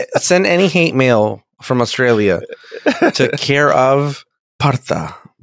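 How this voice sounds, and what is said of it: Put-on Australian accent. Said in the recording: “I like that Australian accent.”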